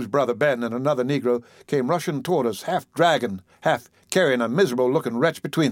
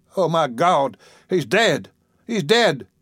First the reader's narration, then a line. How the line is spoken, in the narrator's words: wailed the brother